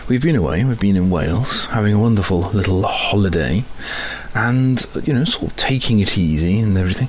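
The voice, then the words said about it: Voice with a cold. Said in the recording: “I've got a bit of a cold, I'm afraid ... the sore throat and the cough and the snivels”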